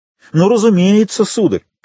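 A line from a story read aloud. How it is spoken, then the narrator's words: Loud addition. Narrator (Russian): прибавил громко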